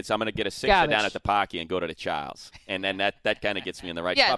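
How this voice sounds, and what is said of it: Put-on Boston accent. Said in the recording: “Garbage is the easiest word to say with the Boston. ... such an ugly accent.”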